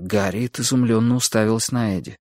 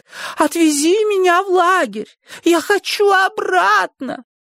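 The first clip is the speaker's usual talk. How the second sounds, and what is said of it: Mocking squeaky imitation. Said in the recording (Russian): “издевательски запищала Эдди, передразнивая Гарриет”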